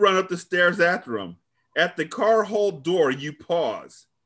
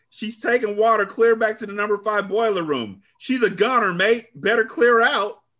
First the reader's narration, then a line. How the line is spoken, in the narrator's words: the man shouts